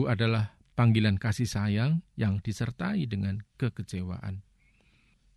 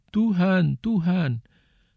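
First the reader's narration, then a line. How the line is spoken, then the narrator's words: Many people crying out. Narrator (Indonesian): Banyak orang akan berseru kepadaku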